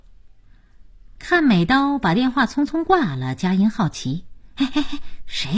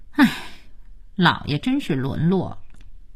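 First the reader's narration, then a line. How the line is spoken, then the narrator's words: Sighing. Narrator (Chinese): 佳期却叹气说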